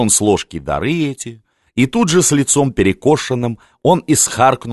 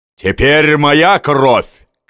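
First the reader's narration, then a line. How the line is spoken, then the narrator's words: Shout. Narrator (Russian): крикнул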